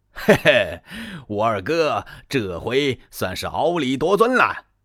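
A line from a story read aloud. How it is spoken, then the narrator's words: Hearty laughter. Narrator (Chinese): 张飞乐了，他是哈哈大笑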